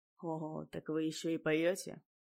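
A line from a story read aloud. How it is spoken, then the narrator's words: Gruff mutter. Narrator (Russian): буркнул Гаскон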